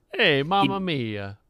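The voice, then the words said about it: Put-on Italian accent, lowered voice. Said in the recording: “He dropped his voice and he started doing an Italian accent ... he was full Italian guy ... It sounded like he owned a pizzeria”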